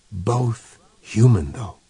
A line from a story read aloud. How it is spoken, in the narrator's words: whispered the speaker